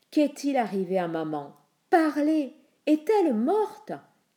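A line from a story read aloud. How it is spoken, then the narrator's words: Shouting. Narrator (French): cria Persée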